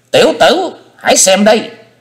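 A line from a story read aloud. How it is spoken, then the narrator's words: Piercing old woman's scream. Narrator (Vietnamese): Lão bà thét lên một tiếng như xé mày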